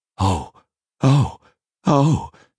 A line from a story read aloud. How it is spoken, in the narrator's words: gasped Jeremias